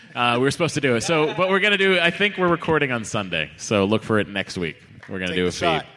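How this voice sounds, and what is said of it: Usual voice. Nothing is said of it.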